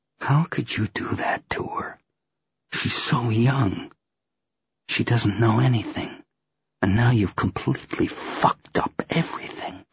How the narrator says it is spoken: drop my mocking tone and say softly

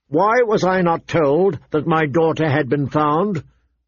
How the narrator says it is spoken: Ned demanded, his voice ringing

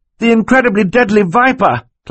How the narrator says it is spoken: Klaus cried

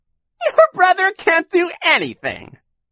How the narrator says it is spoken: Shirley said, giggling in a most annoying way

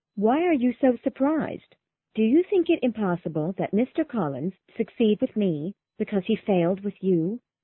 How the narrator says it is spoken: Charlotte was a little hurt at this, but calmly said

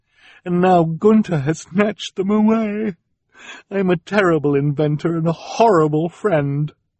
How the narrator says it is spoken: she said mournfully

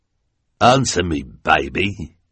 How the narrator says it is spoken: the hook-handed man growled

